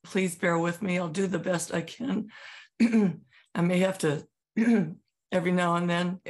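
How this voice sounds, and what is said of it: Voice in poor condition. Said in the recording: “I apologize for my voice.”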